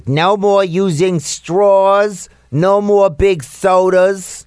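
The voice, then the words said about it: Exaggerated imitation of another person's voice. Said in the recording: “that's a little bit of an exaggerated Bloomberg accent ... Kind of sounds like that”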